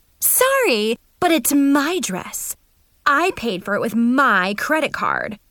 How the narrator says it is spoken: Mackenzie yelled

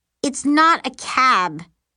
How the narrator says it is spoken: Mary snarls from the back seat

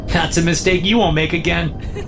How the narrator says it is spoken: she laughs

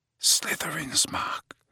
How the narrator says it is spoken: he said quietly

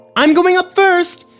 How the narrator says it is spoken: yelled Parker

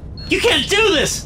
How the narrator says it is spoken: shout

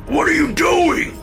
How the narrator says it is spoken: Dad screamed

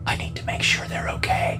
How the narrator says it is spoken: she whispered

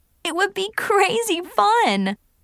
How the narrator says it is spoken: I giggled

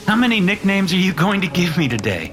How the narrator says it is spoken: Mitchell asked with a laugh

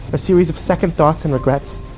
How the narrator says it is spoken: She snapped

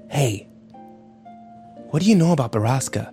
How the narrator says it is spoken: Ike whispered to him

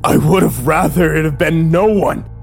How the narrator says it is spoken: I screamed at him

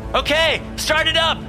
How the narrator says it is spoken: I shouted

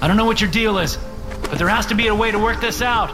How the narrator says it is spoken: I shout

